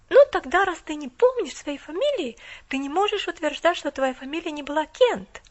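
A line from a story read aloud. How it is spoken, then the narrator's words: Exclaiming. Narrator (Russian): воскликнула она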